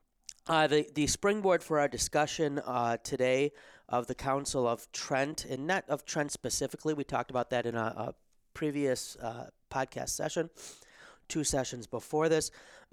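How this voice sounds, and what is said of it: Slightly hoarse, worn-out voice. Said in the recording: “losing my voice a little bit this week after a lot of recording and Zoom meetings and allergy season”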